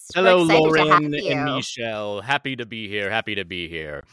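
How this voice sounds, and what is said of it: Put-on transatlantic accent. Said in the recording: “is that an accent? ... it's just my transatlantic accent”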